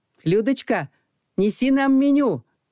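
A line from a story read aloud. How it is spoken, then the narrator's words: Lazy, swaggering shout. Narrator (Russian): вальяжно крикнул Макар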